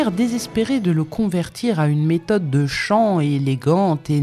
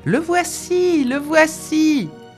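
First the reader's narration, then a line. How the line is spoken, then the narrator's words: Whole henhouse shouting together. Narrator (French): cria tout le poulailler en cœur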